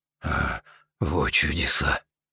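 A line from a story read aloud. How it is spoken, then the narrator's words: Quiet, delighted and amazed. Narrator (Russian): произнес тихо, и в его голосе явно слышались восторг и удивление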